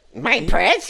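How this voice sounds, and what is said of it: Raspy Gollum character voice. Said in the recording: “Gollum from Lord of the Rings ... That's pretty good.”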